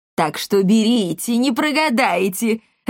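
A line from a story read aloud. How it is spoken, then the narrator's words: Joyful. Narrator (Russian): радостно закончил Полиамор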